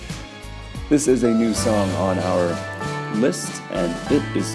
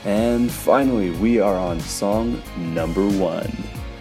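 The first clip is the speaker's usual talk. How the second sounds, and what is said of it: Booming announcer voice. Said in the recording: “my impression of the booming voice that says number one before the start of every song”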